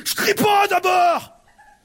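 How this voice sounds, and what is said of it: Angry shouting. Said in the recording (French): “elle hurlait ... Pourquoi tu cries ?”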